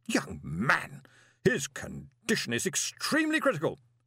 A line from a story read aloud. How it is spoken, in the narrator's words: she snapped